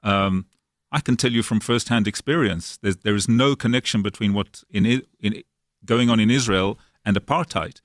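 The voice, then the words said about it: South African accent. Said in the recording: “as you know from my accent, I was actually brought up in South Africa”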